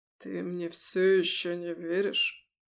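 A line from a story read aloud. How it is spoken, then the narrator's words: Hoarse. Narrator (Russian): хрипло выговорил герцог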